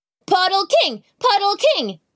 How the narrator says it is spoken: he yelled

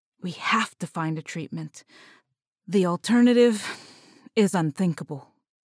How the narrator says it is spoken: Eric muttered softly

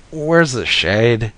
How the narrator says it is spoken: I moaned

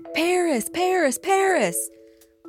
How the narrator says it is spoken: the paparazzi spot them, they shout

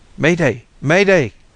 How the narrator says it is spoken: he began to shout

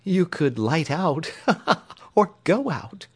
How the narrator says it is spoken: giggled the little girl

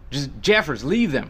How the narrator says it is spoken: shouted through the downpour

